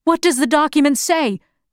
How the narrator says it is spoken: the crowd shouted

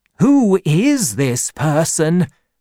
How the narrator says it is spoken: cried Khufu

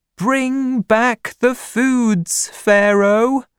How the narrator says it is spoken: The people cried

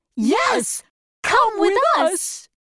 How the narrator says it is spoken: said the Scarecrow and Dorothy happily

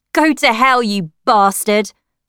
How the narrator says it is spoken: shouted, before I started crying

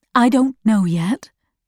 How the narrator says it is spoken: Mother said

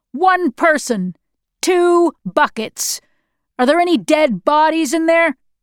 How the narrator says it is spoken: the NKVD shouted at us

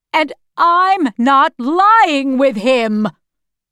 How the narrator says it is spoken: she shouted at Jonas

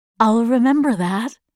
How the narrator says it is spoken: said

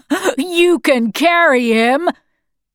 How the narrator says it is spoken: said, laughing

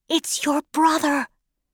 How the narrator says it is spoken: she whispered

